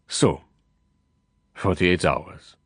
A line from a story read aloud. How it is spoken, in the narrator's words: he sighed